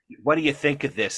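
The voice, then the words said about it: Imitated New York accent. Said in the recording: “My mother, you know, with her New York accent”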